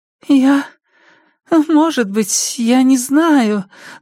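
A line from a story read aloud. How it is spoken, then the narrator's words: Trembling, chirping voice. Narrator (Russian): дрожащим голосом защебетала Кеа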